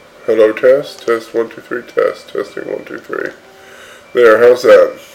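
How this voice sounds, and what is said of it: Congested, stuffy-nosed voice. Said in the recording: “You'll pardon my stuffy nose, I have a little bit of a cold.”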